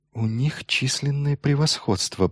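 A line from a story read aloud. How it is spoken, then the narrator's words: Mutter. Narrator (Russian): пробормотал Торн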